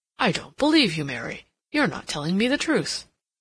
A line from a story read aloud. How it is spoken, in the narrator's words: exclaimed